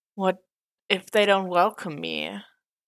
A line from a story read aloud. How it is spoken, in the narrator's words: asked in a small voice face buried under a blanket